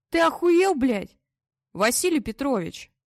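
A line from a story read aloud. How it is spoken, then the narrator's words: Loud straining shout. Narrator (Russian): Как мог, громко крикнул Вадим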